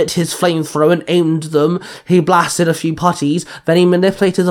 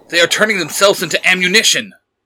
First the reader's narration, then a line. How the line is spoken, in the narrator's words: Nightwing growled